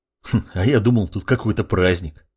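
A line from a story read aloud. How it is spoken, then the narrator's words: Young man's snorting remark. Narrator (Russian): хмыкнул парень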